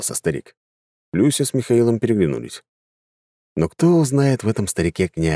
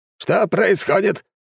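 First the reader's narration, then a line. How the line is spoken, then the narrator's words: Barked, commanding voice. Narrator (Russian): рявкнул он командным голосом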